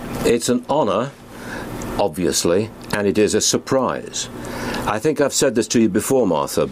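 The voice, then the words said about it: Very obvious foreign British accent. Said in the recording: “you were born in the UK ... a man with a very obviously foreign accent ... such an obvious foreigner”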